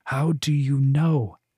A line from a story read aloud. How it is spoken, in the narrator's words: Wen asked, his voice tense